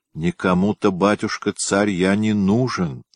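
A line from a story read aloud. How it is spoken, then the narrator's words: Artless sigh. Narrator (Russian): простодушно вздохнул Тетерин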